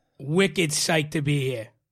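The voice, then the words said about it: Thick Boston accent. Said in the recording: “Was that Boston? ... that sounded like Boston. ... It's a thick accent. ... one of my top five imitations”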